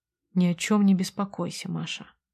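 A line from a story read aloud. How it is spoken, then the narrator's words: Quiet. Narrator (Russian): тихо сказал он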